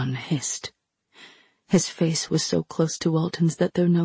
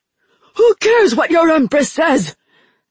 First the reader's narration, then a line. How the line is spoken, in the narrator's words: Chagan screamed